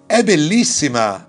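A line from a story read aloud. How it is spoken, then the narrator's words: Exclaimed. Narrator (Italian): esclamò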